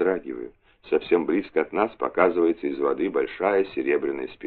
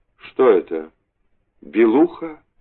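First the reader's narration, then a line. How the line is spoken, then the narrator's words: Uncertain question. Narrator (Russian): неуверенно спрашиваю я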